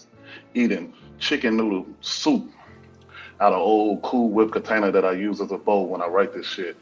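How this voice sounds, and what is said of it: Southern American twang. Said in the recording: “Southern twang in my vocabulary”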